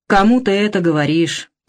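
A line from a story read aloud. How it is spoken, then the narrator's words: Grumbling. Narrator (Russian): проворчал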